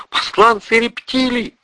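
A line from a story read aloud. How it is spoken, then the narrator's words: Shrieking. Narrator (Russian): завизжала Ольга Исида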